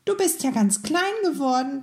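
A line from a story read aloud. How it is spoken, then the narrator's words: Little mouse squeaking. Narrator (German): piepste das Mäuschen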